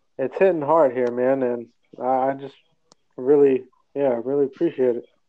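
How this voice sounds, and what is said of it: Emotional, moved voice. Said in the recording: “I'm getting a little emotional here”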